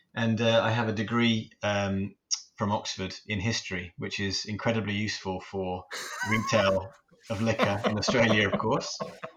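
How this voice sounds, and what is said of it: English Midlands accent. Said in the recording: “originally I come from a country town in the UK. We share an accent ... a town called Shrewsbury in the Midlands”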